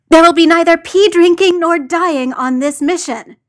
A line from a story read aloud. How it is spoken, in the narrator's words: John snapped